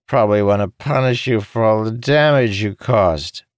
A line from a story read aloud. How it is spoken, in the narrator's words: Jacob slurred